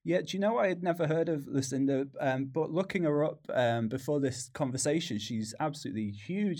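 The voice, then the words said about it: British accent from Manchester. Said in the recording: “you can probably tell by the accent that I'm based in the UK, out in Manchester.”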